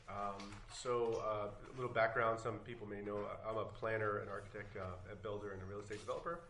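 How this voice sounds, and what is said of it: Voice affected by illness. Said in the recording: “Sorry about my voice tonight. I've been sick for about 2 days”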